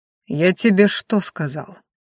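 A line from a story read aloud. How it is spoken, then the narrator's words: Cold question. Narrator (Russian): холодно спросил Ранхаш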